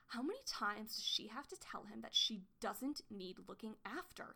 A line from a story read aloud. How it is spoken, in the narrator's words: she spat